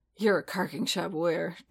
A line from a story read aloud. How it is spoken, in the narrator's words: Din grunted